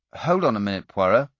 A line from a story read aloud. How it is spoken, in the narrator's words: I said